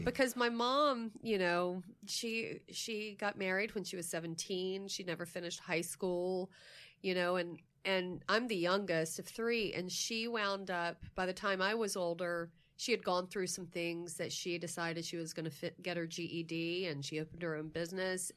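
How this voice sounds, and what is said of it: Emotional, choked-up voice. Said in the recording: “I'm getting emotional. ... I'm getting verklempt.”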